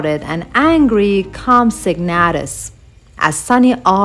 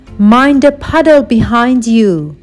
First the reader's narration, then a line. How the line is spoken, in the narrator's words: his sister cried